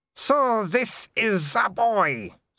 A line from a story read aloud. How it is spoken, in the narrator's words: said the Baroness, her voice slurring